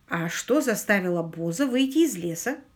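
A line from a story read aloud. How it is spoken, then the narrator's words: Plain. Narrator (Russian): спросил Квиллер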